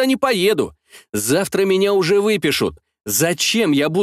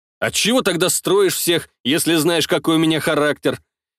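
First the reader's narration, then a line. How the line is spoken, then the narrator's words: Snorting. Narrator (Russian): Я хмыкнул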